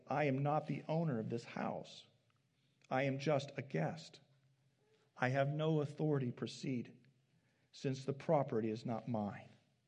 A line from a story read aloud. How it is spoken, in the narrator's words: added slowly